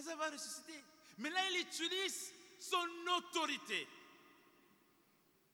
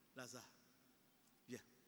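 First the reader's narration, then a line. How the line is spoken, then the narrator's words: Soft. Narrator (French): Il peut dire doucement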